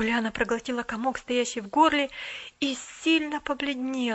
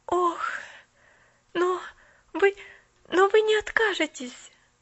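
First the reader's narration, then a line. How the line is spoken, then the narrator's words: Panicked pleading. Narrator (Russian): взмолилась Поллианна в мгновенной панике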